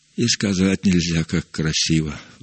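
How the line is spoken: Admiring sigh. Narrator (Russian): вздохнул Иероним

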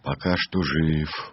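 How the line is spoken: Glum. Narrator (Russian): уныло ответил Мартин

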